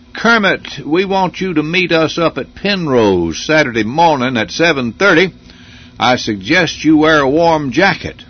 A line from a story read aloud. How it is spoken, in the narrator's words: He said in that southern drawl